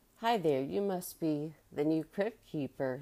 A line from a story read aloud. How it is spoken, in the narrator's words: laughed